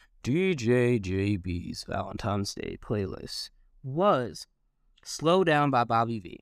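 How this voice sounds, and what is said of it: Put-on radio DJ voice. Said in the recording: “trying to put the radio voice on”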